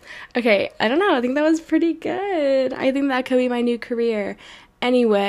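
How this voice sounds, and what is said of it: Usual voice. Nothing is said of it.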